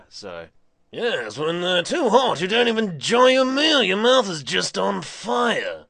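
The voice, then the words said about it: New Zealand accent. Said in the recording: “this is my normal voice, New Zealand accent.”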